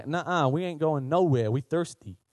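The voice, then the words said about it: Weird southern accent. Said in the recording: “The horses had like a weird southern accent.”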